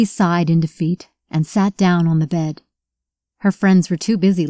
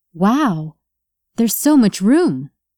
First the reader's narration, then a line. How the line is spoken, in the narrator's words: Julie exclaimed